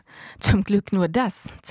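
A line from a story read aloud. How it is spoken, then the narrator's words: Hissing. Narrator (German): zischte ich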